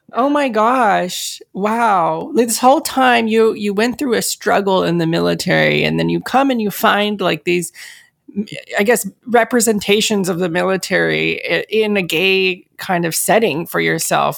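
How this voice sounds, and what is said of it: Teary, emotional voice. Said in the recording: “I'm getting teary.”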